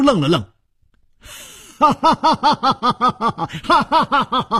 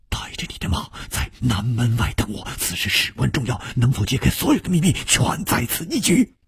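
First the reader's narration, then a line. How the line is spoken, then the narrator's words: Low, secretive whisper. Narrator (Chinese): 楚留香却已经压低了语声，悄悄地说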